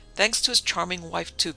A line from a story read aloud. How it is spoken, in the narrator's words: cried a plump, bald man